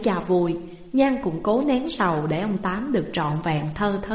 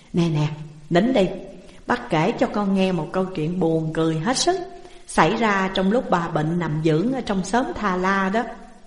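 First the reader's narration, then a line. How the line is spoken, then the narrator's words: Laughing heartily, coaxing. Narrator (Vietnamese): ông Tám cười lớn lên, cười ha hả một hơi rồi dỗ Nhan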